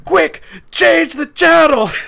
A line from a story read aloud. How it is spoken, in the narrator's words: scream